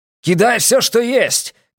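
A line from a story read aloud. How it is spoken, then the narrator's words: Shout. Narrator (Russian): крикнул Бреккер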